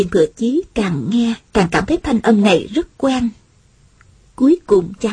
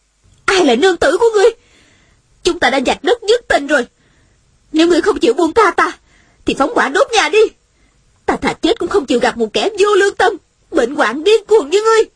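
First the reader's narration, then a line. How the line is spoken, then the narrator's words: Angry. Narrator (Vietnamese): Nữ nhân trong nhà giận dữ nói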